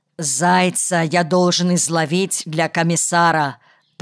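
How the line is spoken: Breathless, angry. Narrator (Russian): даже слегка задохнувшись, затем сердито добавил

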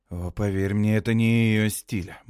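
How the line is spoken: Gloomy. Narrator (Russian): мрачно говорю я

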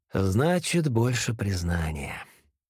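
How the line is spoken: Soft. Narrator (Russian): мягко сказал

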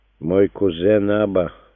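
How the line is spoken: Gloomy. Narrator (Russian): мрачно начал Иосиф бен Маттафей

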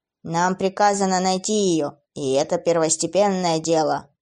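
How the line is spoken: Creaky demon voice. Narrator (Russian): проговорил один из демонов скрипучим голосом

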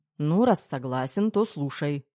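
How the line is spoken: Smirking grunt. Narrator (Russian): хмыкнул Головин

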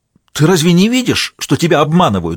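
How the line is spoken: Angry question. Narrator (Russian): зло спросил Молоков

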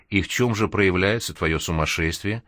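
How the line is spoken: Sympathetic, humoring tone. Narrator (Russian): участливым тоном добавила она, словно действительно говорила с не совсем нормальным человеком

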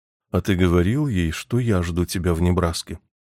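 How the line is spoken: Cold, dispassionate tone. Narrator (Russian): заметила миссис Джонс с холодным, бесстрастным тоном

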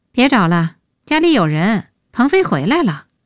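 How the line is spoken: Sighing. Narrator (Chinese): 叹

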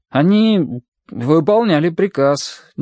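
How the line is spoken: Uncertain. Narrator (Russian): неуверенно сказал Митя

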